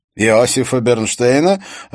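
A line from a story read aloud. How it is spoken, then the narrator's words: Laughing. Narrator (Russian): Андре Брокхард рассмеялся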